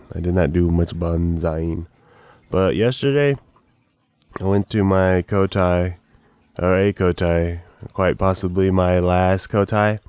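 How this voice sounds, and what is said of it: Hoarse, tired, worn-out voice. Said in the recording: “I have a headache right now ... you're really tired ... my voice is gone”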